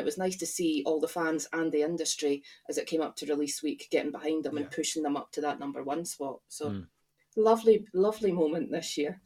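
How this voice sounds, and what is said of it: Posh-sounding accent. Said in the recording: “my voice has gone all posh”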